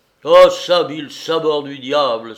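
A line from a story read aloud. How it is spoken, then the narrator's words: Exclaiming. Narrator (French): s'écria-t-il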